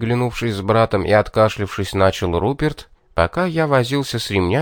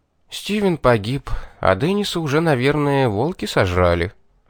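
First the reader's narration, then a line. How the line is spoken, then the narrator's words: Indifferent tone. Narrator (Russian): безразличным тоном уведомил я его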